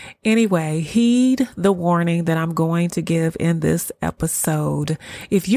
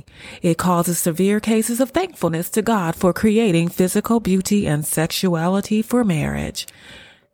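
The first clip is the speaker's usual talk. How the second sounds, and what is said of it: Radio talk show announcer voice. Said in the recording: “That's my radio voice, y'all, my radio talk show voice.”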